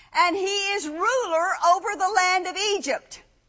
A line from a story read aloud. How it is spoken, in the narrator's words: they shouted to him